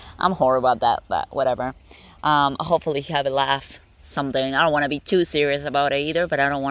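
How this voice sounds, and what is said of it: Usual voice. Nothing is said of it.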